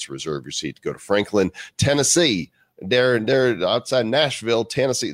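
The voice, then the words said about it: Poor fake Southern accent. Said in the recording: “That's not a good Southern accent.”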